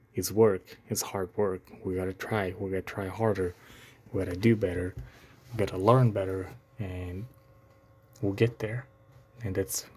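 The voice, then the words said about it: Non-native English accent. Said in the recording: “does my accent challenge me? Yes. ... me being a non-native English speaker”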